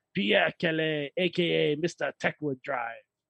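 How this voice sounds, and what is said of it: Put-on French accent. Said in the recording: “we just did his name in the French accent.”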